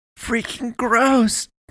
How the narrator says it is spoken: Tyler exclaimed

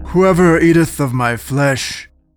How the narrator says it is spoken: the man boomed

